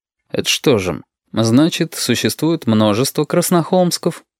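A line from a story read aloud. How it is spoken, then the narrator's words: Fairly even questioning tone. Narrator (Russian): Довольно ровным тоном поинтересовался Валентин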